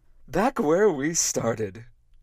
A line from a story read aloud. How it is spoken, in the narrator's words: said, cheerfully